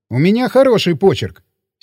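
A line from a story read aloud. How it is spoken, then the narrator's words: Angry statement. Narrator (Russian): сердито сказал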